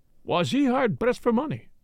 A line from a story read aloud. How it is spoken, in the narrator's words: interpolated Poirot quickly